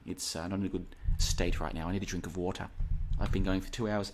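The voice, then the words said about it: Strained, tired voice. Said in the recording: “my voice is going. It's going... my voice is starting to struggle”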